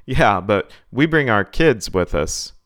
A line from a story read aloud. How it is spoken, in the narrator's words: chuckled a little before replying